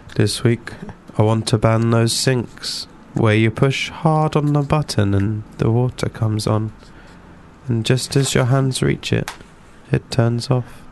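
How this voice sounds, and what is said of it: Creepy put-on voice. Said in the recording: “I do my creepy voice ... made all the more creepy”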